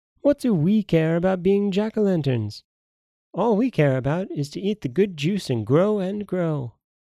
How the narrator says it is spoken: all his little brothers and sisters laughed and said

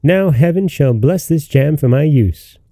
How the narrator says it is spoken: cried the little tailor

